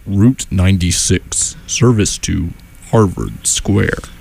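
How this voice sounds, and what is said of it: Low automated bus announcer voice. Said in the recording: “I think it's a little lower. It's more like ... the voice of the MBTA buses”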